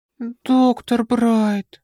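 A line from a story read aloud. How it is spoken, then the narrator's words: Moaning. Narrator (Russian): простонала Арис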